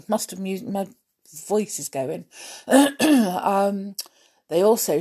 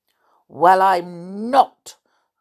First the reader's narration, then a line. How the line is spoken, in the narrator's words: said the small bear sharply